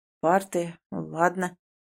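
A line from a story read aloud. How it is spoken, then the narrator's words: Mutter. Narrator (Russian): бормочет Ванька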